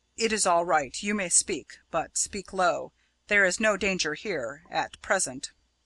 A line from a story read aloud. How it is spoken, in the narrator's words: saying in a low voice